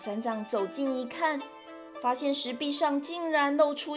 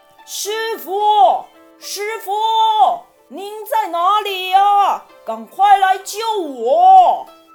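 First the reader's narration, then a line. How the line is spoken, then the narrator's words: Anxious loud distant shout. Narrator (Chinese): 远远的便听见山中有人着急的大声喊叫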